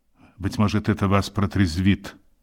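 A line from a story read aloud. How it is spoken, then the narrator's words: Calm remark. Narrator (Russian): спокойно заметил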